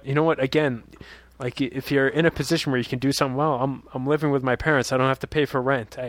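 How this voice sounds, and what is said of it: Usual voice. Nothing is said of it.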